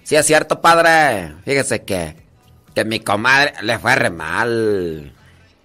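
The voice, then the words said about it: Put-on rural Guanajuato Mexican accent. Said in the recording (Spanish): “pa ahí la de Tarimoro se habla así”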